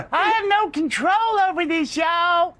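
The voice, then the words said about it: Cartoon kid character voice. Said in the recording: “Don't do that voice. ... I like that voice. That's the South Park kid.”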